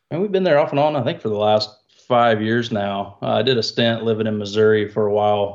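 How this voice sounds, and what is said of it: Southern American accent. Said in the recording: “if people haven't guessed by the accent now ... Originally from Georgia, USA, so southeast.”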